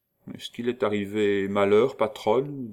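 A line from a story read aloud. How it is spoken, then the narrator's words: Man asking timidly. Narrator (French): demanda-t-il timidement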